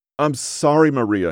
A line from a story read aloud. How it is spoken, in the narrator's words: he cried